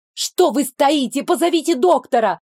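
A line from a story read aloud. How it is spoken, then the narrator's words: Sharp shout. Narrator (Russian): прикрикнула я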